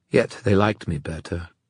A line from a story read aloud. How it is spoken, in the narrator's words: Kieran said quietly